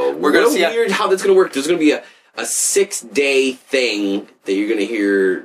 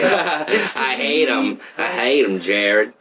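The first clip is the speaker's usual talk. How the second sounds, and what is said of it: Put-on Southern accent. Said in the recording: “My southern accent.”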